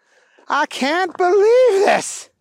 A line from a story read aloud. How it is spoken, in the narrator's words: Booger yelled out